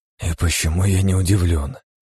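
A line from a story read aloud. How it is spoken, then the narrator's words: Harsh forced laugh. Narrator (Russian): выдавил резкий смешок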